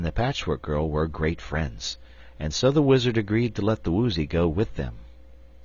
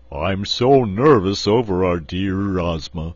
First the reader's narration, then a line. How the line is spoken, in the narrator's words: said the Cowardly Lion in his deep, rumbling voice